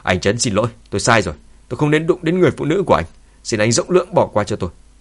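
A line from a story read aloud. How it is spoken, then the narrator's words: Angry. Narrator (Vietnamese): Cô ta giận dữ nói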